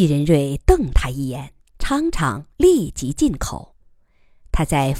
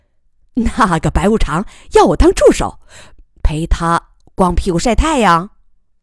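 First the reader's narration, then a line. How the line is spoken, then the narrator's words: Giggling, playful. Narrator (Chinese): 季继昌嬉笑着说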